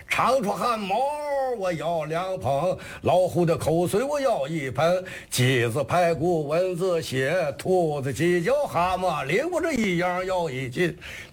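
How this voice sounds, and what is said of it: Shandong-flavored performance accent. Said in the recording (Chinese): “他这有这山东味儿。”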